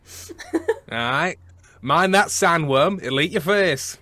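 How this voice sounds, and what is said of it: Put-on Brummy English accent. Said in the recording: “West Country ... In fact, that's not even West Country. ... That's Brummy.”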